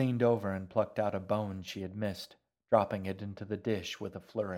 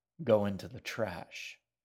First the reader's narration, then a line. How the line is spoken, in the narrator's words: the shaggy man said with a sigh